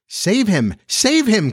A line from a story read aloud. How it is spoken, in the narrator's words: cried Wendy, looking with horror